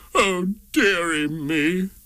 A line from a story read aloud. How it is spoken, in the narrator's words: The King sobbed